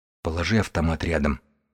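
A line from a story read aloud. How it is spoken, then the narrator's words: Barely audible request. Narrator (Russian): попросил едва слышно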